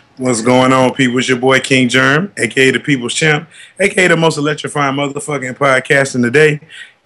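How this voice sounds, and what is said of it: Hoarse, strained voice. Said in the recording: “Why your voice fucked up? ... I done lost my voice ... I've noticed a decline ... I just been hoarse for like 2 months”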